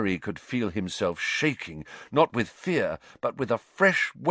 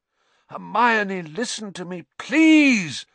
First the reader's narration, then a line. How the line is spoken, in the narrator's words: Lupin shouted